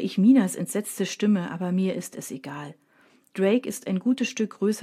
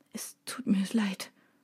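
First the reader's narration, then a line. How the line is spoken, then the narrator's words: Quiet, choked with tears. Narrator (German): sagt er leise mit tränenerstickter Stimme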